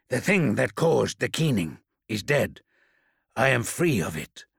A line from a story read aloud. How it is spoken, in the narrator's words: growled